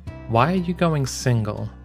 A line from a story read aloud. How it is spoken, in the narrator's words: Yang sighed